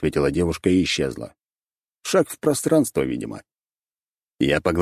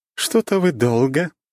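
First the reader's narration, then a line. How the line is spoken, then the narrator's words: Laughing. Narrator (Russian): смеялась Рейна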